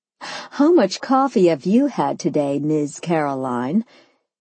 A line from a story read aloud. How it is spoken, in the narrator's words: she laughed